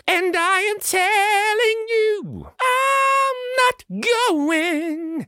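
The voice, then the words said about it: Sung imitation of another singer. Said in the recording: “my Jennifer Hudson impression. I don't sing anywhere near like her.”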